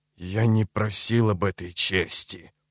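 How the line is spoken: Slow, emphatic, through teeth. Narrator (Russian): процедил он медленно, акцентируя каждое слово

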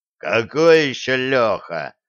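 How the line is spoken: Growled. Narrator (Russian): рыкнул Греф

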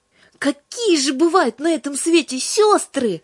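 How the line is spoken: Exclaimed. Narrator (Russian): воскликнула Юлька

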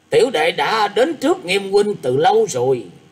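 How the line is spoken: Loud laughing reply. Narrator (Vietnamese): một giọng cười to đáp rằng

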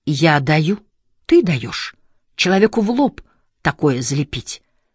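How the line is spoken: Loud whisper. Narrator (Russian): громко шептал Монахов

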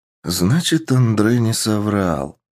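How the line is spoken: Heavy sigh. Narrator (Russian): тяжело вздохнув, ответил переговорщик

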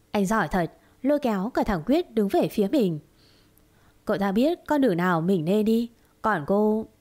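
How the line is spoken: Bitter smile. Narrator (Vietnamese): Chu Linh mỉm cười chua chát

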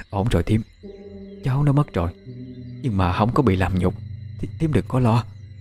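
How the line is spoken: Woman muttering. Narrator (Vietnamese): Một người đàn bà miệng lẩm bẩm nói

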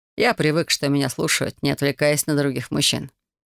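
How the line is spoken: Completely calm. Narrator (Russian): отозвался Айдер совершенно спокойно

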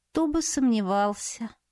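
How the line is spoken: Mutter. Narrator (Russian): пробормотала я

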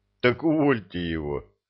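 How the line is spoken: Laughing. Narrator (Russian): засмеялся Илья

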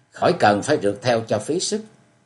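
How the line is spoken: Young man cold reply. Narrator (Vietnamese): Chàng cũng lạnh lùng trả lời

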